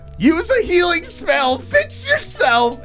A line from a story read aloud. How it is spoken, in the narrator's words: Eric screams